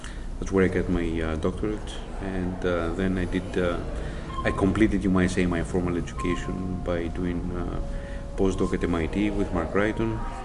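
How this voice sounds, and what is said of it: Greek accent. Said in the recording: “one can't help noticing your accent... Originally from Greece... you never get rid of the accent”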